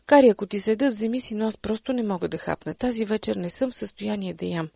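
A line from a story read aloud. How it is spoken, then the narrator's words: Plain reply. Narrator (Bulgarian): отвърнах и аз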